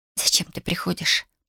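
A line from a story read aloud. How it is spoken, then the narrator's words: Whisper. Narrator (Russian): прошептала она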